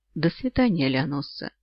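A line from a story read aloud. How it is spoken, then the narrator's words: Unusually tender. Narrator (Russian): Голос Оллера звучал непривычно ласково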